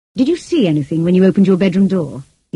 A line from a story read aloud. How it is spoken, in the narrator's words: he asked